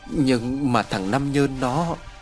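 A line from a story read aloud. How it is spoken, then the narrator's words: Trembling. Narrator (Vietnamese): Bà hội đồng vẫn còn run rẩy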